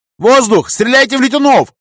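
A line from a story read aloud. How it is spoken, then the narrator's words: Loud yelling. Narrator (Russian): орал я всем, до кого мог докричаться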